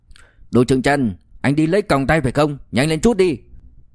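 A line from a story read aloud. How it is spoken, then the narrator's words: Curious shout. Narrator (Vietnamese): Trong lòng ôm sự hiếu kỳ rất lớn, La Sâm Bình la lên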